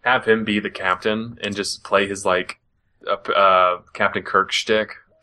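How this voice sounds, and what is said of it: Usual voice. Nothing is said of it.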